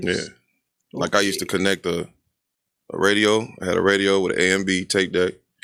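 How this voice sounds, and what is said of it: Deep, smooth radio-announcer voice. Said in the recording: “What is this Barry White thing you have going on? ... my voice? It's my radio voice.”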